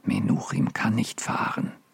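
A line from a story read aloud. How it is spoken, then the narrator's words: Very quiet, fearful. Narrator (German): sagte Deborah so leise, als fürchtete sie, der Kranke könnte sie verstehen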